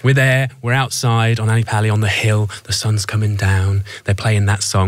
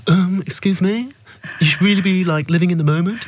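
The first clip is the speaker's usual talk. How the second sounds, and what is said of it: Imitates another person's voice. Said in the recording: “You can tell what I feel about her from my impression of this.”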